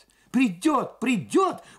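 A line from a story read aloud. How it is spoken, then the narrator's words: Two voices exclaiming in unison. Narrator (Russian): в один голос воскликнули обе машинистки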